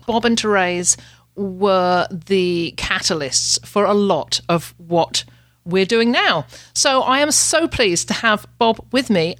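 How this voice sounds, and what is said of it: Canadian Ontario accent. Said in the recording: “your outrageous Ontario accent”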